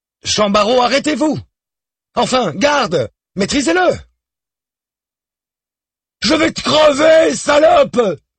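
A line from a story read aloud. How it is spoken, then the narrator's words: Young man screaming. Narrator (French): hurle toujours le jeune homme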